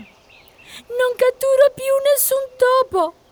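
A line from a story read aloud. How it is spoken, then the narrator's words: Whining cat. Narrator (Italian): piagnucolò la gatta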